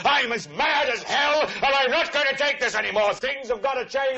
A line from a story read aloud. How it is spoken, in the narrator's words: yell